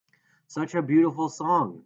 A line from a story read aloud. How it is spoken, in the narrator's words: Grace Wexler slurred